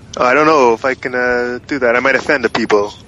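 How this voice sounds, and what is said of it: Put-on Italian accent. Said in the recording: “You gotta talk with an Italian accent ... that's pretty good, though. That's not bad. ... It's actually pretty accurate.”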